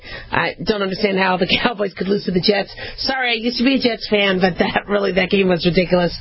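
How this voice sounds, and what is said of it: Hoarse, strained, fading voice. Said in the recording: “I'm kind of losing my voice. I was screaming a lot at the TV yesterday... I've kind of lost my voice, a lot of screaming yesterday”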